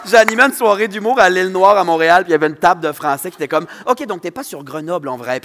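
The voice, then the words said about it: Saguenay Quebec French accent. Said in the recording (French): “mon accent de Saguenayen”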